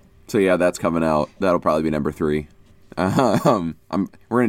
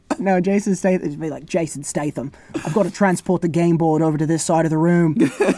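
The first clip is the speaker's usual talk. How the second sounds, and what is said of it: Attempted British accent imitating an actor. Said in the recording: “I'm trying to get his accent British ... You were doing like a Mark Wahlberg.”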